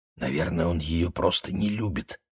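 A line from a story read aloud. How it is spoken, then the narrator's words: Whispered reply. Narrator (Russian): шептал я в ответ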